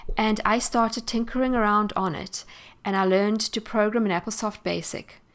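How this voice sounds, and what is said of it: South African English accent. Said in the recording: “You may have realized from my accent that I am not American. In fact, I am South African”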